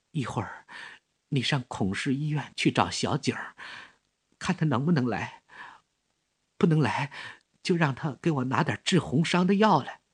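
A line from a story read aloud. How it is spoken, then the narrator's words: Weak faint voice. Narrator (Chinese): 关敬贤声音微弱的对小吴说着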